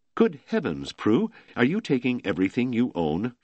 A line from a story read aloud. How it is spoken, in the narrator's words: she asked